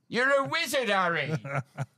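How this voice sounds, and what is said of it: Hagrid impression. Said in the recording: “That's a good accent ... It's pretty close to my Hagrid.”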